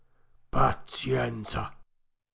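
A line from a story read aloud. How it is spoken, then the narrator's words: Sighing. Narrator (Italian): soggiunse, sospirando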